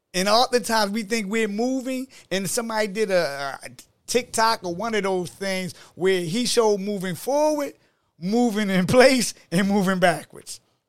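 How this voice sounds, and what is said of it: Baltimore accent. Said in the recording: “I hear your accent. You from Baltimore.”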